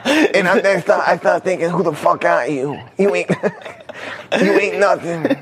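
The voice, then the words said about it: Imitates another person's voice. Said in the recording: “my Mike impersonation”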